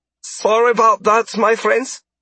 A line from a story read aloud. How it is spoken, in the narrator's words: the man said in a thick German accent